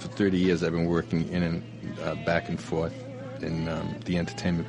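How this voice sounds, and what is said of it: Rhode Island accent. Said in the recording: “I've wanted to purge my Rhode Island accent for 30 years”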